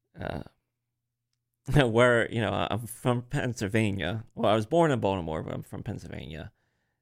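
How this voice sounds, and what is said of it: Slight Maryland accent. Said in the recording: “my terrible voice ... my cadence and my tone is like a weird, a little bit of Marylander ... Yeah, definitely. I can hear it.”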